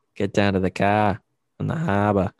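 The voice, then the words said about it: Put-on Boston accent. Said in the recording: “Boston is the worst accent on earth. When I talk to people from up there, boof, awful accent. ... Well, there you had the accent.”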